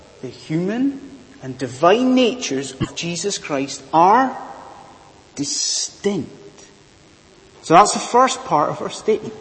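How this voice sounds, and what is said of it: Scottish accent. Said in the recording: “my weird accent, I am from a land far, far away. I am from Bonnie, Scotland.”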